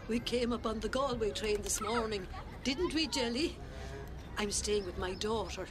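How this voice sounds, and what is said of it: Rural Irish country accent. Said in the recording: “Do I hear a country accent?”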